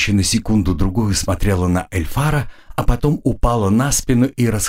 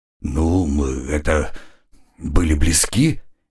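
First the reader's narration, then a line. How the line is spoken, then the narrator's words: Uncertain young man. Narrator (Russian): неуверенно ответил юноша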